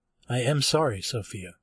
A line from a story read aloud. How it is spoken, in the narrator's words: in a steady, even voice, I said, with conviction